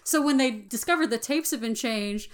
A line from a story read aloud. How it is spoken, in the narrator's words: Grumpy laughs